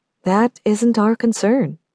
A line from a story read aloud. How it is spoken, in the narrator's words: Victor replied